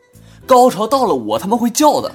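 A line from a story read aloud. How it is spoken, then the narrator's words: Impatient loud. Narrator (Chinese): 女售票员呢实在是不耐烦，高声的回答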